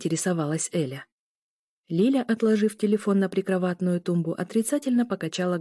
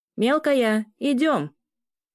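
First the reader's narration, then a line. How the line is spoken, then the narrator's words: Shouted from a distance. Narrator (Russian): Крикнул из коридора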